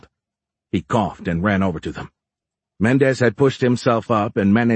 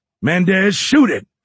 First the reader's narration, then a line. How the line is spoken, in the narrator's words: Fitz yelled